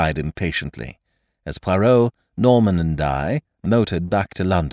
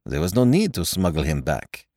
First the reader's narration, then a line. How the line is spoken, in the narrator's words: replied Poirot dryly